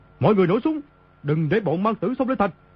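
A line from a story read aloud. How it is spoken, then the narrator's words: Panicked loud shout. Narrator (Vietnamese): Y trong lúc hoảng sợ quát lớn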